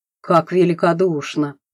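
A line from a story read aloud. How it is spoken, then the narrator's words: Through gritted teeth. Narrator (Russian): процедил Савичев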